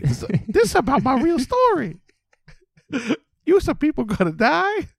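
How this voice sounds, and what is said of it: Jar Jar Binks impression. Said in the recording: “If Jar Jar Binks said it ... do the voice”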